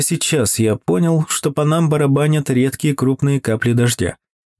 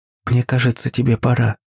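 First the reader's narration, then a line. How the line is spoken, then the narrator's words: Sudden quiet whisper. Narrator (Russian): вдруг тихо шепнула Таня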